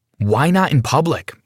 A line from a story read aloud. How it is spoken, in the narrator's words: I blurted out